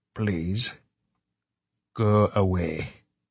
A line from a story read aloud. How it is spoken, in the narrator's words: he said so calmly he surprised himself